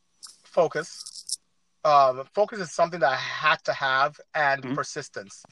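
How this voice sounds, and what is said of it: West African accent. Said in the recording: “you can tell from my accent, I'm not from here, I'm not from the United States. ... back home in West Africa”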